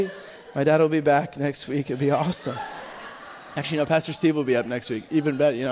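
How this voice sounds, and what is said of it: Usual voice. Nothing is said of it.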